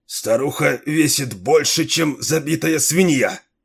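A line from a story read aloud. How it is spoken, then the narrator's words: Strained. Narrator (Russian): выдавил он из себя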